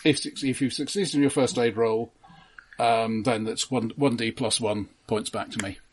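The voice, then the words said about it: Gravelly voice. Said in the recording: “My voice is not actually naturally this gravelly, just 80% this gravelly.”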